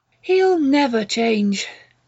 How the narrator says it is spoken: Jill said bitterly

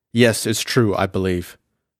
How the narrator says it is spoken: Morse replied gravely

